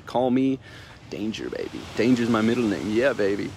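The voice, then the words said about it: Bad Austin Powers impression. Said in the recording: “terrible Austin Powers impression.”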